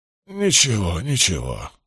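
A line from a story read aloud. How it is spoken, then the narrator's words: Breathed out. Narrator (Russian): скорее выдохнул, чем произнес он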